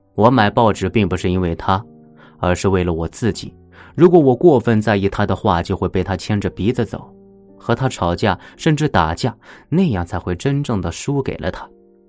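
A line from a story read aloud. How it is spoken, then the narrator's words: Laughing heartily. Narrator (Chinese): 西奥多哈哈笑着说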